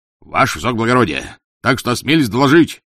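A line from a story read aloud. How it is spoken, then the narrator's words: Loud barking shout. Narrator (Russian): гаркнул полицейский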